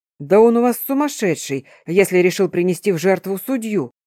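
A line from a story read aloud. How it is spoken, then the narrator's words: Astonished exclamation. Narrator (Russian): пораженно воскликнул Эрион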